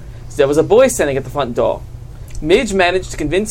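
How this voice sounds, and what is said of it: Usual voice. Nothing is said of it.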